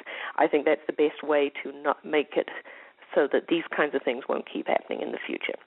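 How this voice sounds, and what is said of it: New Zealand accent. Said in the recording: “a Kiwi voice ... a Kiwi accent”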